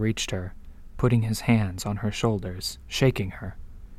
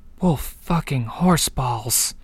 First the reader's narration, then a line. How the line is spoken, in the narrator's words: she muttered, groaning